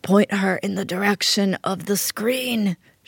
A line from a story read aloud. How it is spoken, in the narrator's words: she croaked like a dying Don Corleone